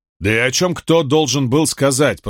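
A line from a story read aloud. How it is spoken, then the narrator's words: Muttered. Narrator (Russian): пробурчал он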